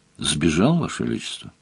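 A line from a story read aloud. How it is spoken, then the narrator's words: Calm. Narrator (Russian): спокойно сказал тот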